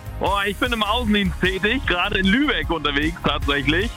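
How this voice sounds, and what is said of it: Cheerful, upbeat voice. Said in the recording (German): “du klingst jetzt schon super gelaunt”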